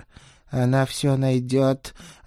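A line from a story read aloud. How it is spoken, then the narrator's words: Cat's resigned exhale. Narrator (Russian): обреченно выдохнул кот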